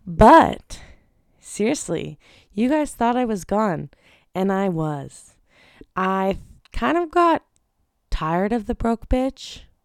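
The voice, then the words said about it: Weird, croaky sick voice. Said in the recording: “my voice is weird. It's because I'm sick. ... let's hope I don't sound like a frog”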